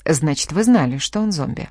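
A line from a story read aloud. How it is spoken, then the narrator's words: Completely calm tone. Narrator (Russian): произнес совершенно спокойным тоном старший следователь Андрей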